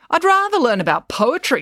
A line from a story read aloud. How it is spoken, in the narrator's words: snapped April